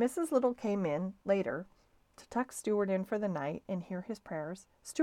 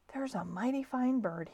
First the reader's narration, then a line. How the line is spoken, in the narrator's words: he whispered, and sighed a tender sigh